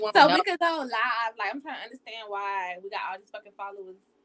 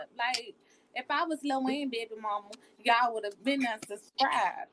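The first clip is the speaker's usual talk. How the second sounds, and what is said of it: Put-on New Orleans accent. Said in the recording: “Wait, the accent changed. ... Did you just put on your... ... I was just in New Orleans. ... It's a whole new accent for that part.”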